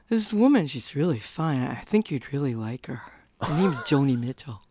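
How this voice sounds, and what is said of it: Good impression of a brother. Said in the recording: “You do a good impersonation of your brother.”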